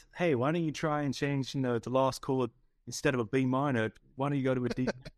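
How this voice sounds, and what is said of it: Imitates another person's voice. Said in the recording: “That's my best Paul impression.”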